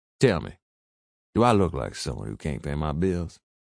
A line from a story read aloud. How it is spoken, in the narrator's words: He chuckled, low and slow, but built up momentum with every breath